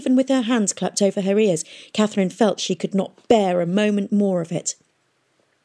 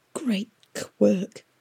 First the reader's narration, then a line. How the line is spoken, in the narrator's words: Pomeroy whispered